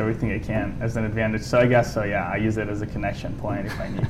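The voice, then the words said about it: Italian accent. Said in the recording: “you got your Italian accent ... where's your accent from?”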